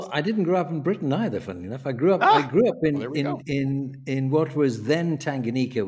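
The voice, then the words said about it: Slight British accent. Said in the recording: “You obviously have a bit of a British, you know, tint to that accent.”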